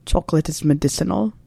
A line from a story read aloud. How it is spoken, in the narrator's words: murmured Severus